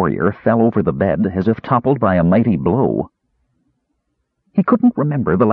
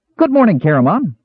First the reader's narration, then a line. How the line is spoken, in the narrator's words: Earwig shrilled cheerfully, his voice piercing Caramon's skull